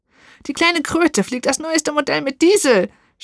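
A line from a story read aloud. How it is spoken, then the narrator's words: Witch screaming in fury. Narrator (German): schrie die Hexe außer sich vor Wut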